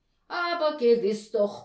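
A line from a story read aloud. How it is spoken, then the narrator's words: Blustering outburst. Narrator (German): polterte da Herr Postel los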